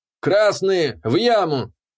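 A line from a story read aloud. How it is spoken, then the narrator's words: Bellowed, dwarf. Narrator (Russian): Гаркнул дворф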